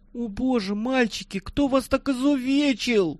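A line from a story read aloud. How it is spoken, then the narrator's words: Frightened lamenting. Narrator (Russian): Испуганно причитала хорошенькая медсестра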